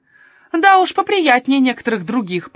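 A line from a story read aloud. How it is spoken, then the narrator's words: Muttering old woman. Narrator (Russian): пробурчала тетушка София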